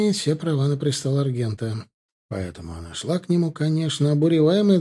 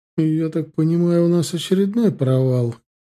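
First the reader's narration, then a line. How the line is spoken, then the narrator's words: Sighing. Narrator (Russian): вздохнула Регенрат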